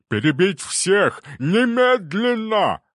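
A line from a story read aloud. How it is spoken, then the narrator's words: Yelled, spluttering. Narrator (Russian): заорал он, брызжа слюной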